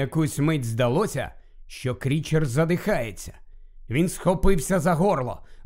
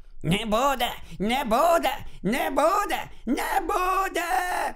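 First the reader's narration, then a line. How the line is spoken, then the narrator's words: Shrieking. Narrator (Ukrainian): Крічер уже просто верещав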